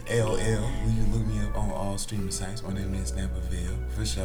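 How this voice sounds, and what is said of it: Smooth put-on radio DJ voice. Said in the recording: “That boy got a radio voice. His voice didn't sound like this when he walked in the house, y'all. That boy changed that whole quiet storm.”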